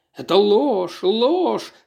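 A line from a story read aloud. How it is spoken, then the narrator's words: Hoarse, struggling. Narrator (Russian): хрипел он, пытаясь вырваться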